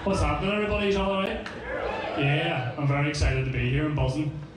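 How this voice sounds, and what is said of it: Strabane accent, sounds unexcited. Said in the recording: “I know that doesn't really come across in this fucking accent of mine. I'm from Strabane, so this is what I sound like ... No matter what I say, this is what I sound like”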